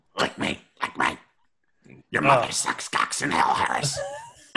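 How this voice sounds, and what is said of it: Impression of possessed Regan. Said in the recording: “I'm good at impersonating Reagan.”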